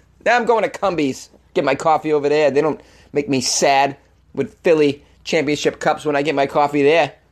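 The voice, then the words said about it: Exaggerated put-on Boston accent. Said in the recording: “I had to take the moment to whip out that Boston accent... I'm going to keep the Boston accent going”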